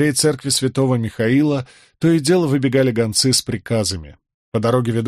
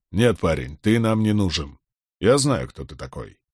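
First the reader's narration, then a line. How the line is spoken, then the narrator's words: Curt. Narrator (Russian): командир резко бросил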